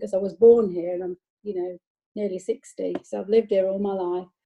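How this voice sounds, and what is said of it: Nottingham English accent. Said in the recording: “I've got a Nottingham accent”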